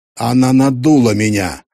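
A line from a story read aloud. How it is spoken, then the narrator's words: Angry bark. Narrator (Russian): рявкнул Мартин, и глаза его сверкнули от гнева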